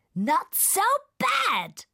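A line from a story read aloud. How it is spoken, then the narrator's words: Shouting over the storm. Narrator (German): schreit der Regenwurm gegen das Unwetter an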